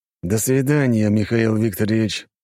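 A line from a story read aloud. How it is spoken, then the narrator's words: Said through teeth. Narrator (Russian): сквозь зубы сказал Кожедуб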